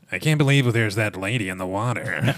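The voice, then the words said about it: Imitates another person's voice. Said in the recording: “Do you want me to do a Richard Dreyfuss?”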